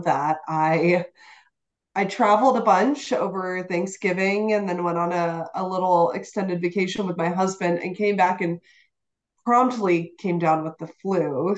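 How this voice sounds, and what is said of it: Voice still rough from illness. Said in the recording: “You may be able to tell by my voice ... my voice is still showing the remnants of that”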